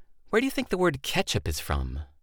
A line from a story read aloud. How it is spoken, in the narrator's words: with disgust and said, just sneering the whole time